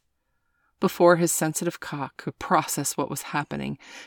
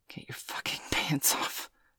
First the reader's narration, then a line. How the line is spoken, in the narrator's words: he gasped